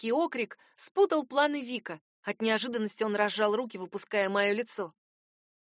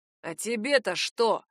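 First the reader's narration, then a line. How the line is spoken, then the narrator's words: Displeased grumble. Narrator (Russian): с неудовольствием пробурчал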